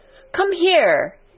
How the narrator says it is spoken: he shouted to Dickon

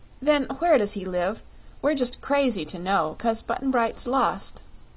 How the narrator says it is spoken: she said

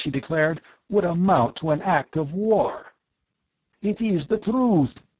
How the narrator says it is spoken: Darko shouted

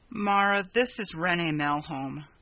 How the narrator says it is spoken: Ryanson said wearily

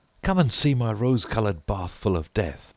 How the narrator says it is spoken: he cried

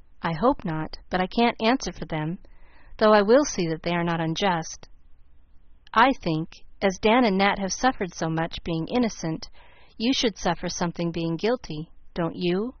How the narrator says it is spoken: asked Mr

